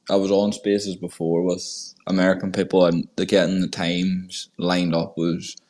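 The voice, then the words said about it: Strong accent. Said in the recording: “you have a pretty strong accent, man. Sounds cool.”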